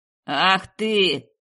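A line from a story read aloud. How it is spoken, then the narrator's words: Roaring. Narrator (Russian): Взревел кто-то из этой пятерки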